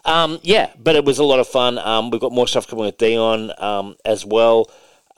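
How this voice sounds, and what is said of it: Strained, failing voice. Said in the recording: “I need it for my throat operation. I'm losing my voice here, as you can see, like 2 minutes into a show.”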